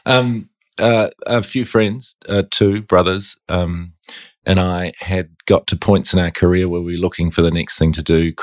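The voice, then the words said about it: New Zealand accent. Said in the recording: “It started on a beach in New Zealand. ... Probably get from my accent.”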